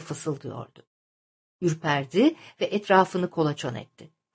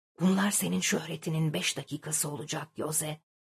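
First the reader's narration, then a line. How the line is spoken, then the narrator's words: Hushed, self-important male voice. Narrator (Turkish): Bir erkek sesi kulağına doğru gayet anlaşılır bir şekilde, sanki çok önemli bir insanmış gibi biraz kısık bir sesle kulağına eğilmiş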